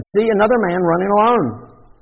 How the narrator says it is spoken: the watchman called out and said

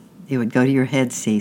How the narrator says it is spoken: said Tyke

